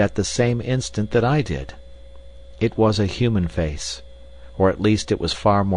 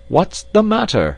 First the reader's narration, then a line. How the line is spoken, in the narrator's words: shouted Roxton from below